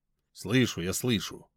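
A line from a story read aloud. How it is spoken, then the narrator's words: Hurried mumble, mouth full. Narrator (Russian): пробормотал я, торопливо засовывая в рот остатки булочки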